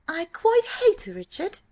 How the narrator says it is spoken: she cried

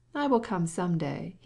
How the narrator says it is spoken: he said

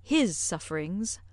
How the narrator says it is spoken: replied Emma dryly

